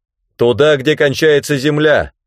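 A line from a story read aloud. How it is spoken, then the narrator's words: Shouting back. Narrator (Russian): крикнул в ответ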